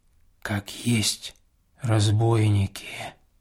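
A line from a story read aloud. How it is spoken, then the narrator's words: Whisper over shoulder. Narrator (Russian): шепнул мне Филофей через плечо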